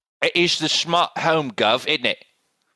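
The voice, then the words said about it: Slightly British put-on accent. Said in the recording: “Maybe slightly British? ... Slightly British”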